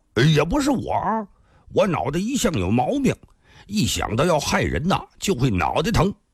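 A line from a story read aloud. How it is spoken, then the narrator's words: Smiling. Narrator (Chinese): 那乞丐笑了笑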